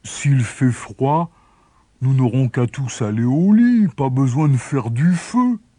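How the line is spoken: Boy grumbling. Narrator (French): grommela le garçon

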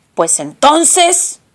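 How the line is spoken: Booming roar. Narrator (Spanish): rugió con su gran boca negra de horno

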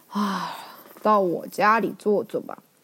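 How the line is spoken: Long sigh. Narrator (Chinese): 尹元长长的叹了一口气，说

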